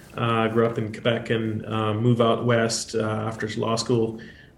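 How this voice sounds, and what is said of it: Noticeable regional accent. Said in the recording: “As you might notice with the accent”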